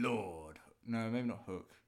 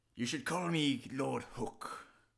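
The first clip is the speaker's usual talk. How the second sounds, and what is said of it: Pirate character voice. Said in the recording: “pirate voices... You can do a pirate voice.”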